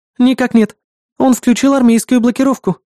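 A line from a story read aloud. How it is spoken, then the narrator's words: Anxious. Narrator (Russian): взволнованно ответила Эрис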